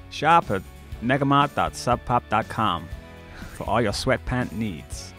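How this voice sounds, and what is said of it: Put-on American accent. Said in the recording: “do it in your American accent ... That's America. That's like Donald Trump. That's what he sounds like.”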